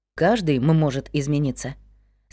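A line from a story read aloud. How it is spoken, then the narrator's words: Calm. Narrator (Russian): спокойно ответил Вик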